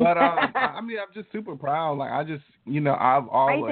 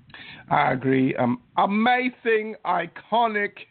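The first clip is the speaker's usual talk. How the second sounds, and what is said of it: Put-on accent, done badly. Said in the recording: “My accent's terrible.”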